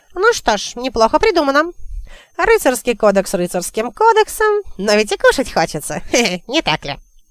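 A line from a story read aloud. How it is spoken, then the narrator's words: Nasty giggle. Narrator (Russian): Он мерзко хихикнул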